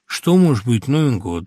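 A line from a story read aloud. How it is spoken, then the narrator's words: Huge speaker sighing. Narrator (Russian): то вздохнул громадный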